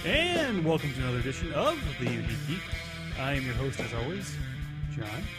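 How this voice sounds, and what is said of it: Put-on radio announcer voice. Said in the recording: “my radio voice”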